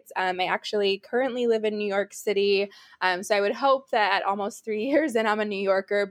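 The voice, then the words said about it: American accent. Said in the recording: “As you can tell by my accent, I am based in the States.”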